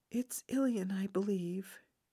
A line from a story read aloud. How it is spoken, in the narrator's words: he said softly